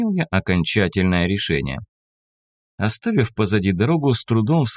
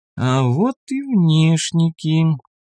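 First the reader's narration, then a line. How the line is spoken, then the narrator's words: Drawl. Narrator (Russian): протянула лиса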